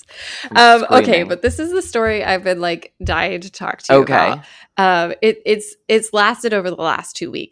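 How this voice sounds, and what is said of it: Raspy voice from illness. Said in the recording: “I've been sick this weekend. I don't know if you get to hear my... You did sound a little raspy”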